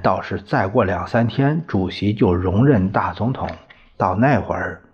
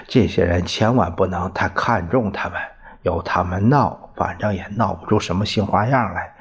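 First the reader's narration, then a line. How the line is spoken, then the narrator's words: Laughing. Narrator (Chinese): 于斌笑了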